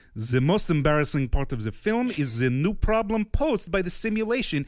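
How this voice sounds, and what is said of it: Put-on German-sounding accent. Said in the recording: “you're going to have to do this in a French accent. ... That is German, but keep going.”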